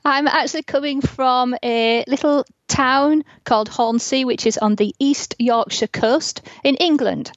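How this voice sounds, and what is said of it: English Yorkshire accent. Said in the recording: “we're listening to this amazing accent”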